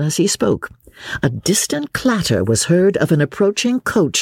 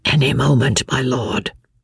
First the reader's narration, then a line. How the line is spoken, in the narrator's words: whispered Jellyband in reply